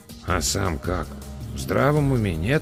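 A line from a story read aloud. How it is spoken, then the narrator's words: Quiet mutter in ear. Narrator (Russian): тихонько пробурчал мне на ухо Эдвин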